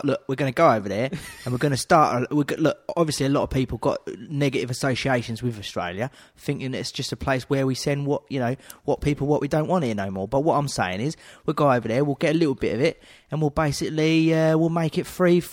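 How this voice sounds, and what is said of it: Put-on Cockney London accent. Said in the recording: “give us the accent, but you've already got it right there... Central London, just like Cotney. He's just a Cotney geezer”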